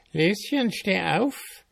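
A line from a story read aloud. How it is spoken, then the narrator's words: Old woman calling. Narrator (German): die Alte ruft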